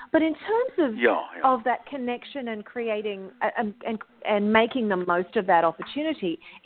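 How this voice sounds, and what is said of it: Clear, lilting Australian accent. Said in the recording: “It's very clear. It's very forthright, and it's lyrical, but and with a hint of joyfulness in it ... the Australian accent ... there is that lilting quality in my speaking voice”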